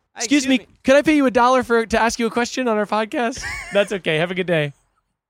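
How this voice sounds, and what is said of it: Polite customer service voice. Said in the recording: “that's my customer service voice ... It was really good ... But in real life, I talk like this”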